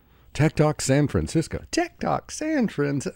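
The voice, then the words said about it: Weird put-on announcer voice. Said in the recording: “doing that weird voice”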